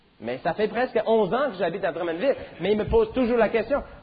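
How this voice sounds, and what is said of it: Non-local French accent. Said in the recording (French): “quand j'ouvre ma bouche ici à Drummondville, le monde me demande souvent, mais d'où est-ce que tu viens? ... Tu n'es pas d'ici, hein? Pourquoi? Parce que j'ai un accent.”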